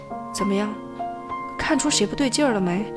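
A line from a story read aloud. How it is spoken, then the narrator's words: Quiet question. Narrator (Chinese): 他小声问我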